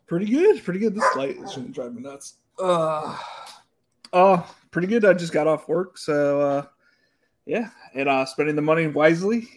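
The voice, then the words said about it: Out of breath, panting speech. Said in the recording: “are you out of breath? ... you clearly are have been in a rush to get here”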